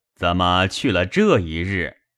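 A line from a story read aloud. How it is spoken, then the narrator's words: Ingratiating, smiling reply. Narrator (Chinese): 贾蓉陪笑回说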